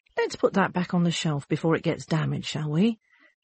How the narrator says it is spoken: A bookshop owner gently says

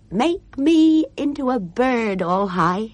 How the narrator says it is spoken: she called out

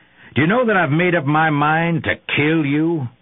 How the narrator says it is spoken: roared

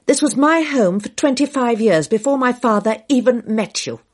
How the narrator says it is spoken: Dale said fiercely

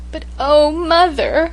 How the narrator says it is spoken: I sobbed

